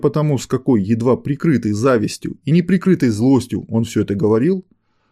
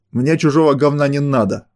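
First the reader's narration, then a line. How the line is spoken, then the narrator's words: Angry curt retort. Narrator (Russian): зло отбрил авторитет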